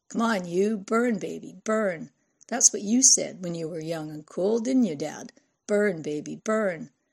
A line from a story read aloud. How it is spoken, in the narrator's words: she laughed